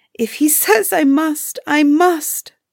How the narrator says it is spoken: poor Ilona sobbed

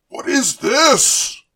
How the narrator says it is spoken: Kronos bellowed

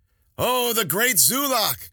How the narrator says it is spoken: Kowatl said, still laughing

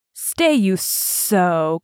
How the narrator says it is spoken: Ka hissed

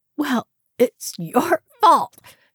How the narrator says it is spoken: she croaked

